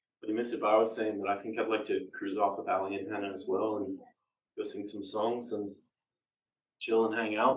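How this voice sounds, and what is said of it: Canadian accent. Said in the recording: “the dulcet tones of my Canadian accent”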